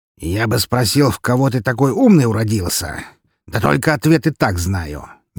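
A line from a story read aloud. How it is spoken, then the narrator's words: Displeased grumbling. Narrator (Russian): недовольно проворчал он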